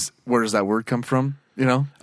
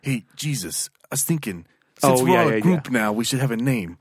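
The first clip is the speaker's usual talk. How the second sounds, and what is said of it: Put-on New York accent. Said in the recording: “he does like this New York accent.”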